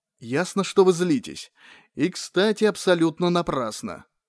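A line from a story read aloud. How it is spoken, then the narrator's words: Soft, smiling. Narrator (Russian): мягко улыбнулся Терренс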